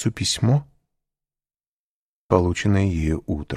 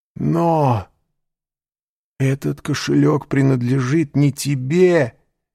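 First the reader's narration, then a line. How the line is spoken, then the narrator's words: Exclaiming. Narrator (Russian): воскликнул Морель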